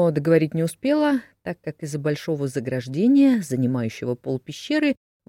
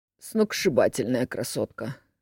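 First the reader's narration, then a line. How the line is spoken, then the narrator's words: Strangled wheeze. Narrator (Russian): сдавленно просипел Дмитрий Никитич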